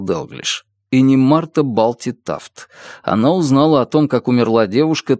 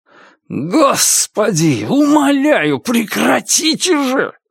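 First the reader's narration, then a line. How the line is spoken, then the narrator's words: Shout. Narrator (Russian): закричал Феликс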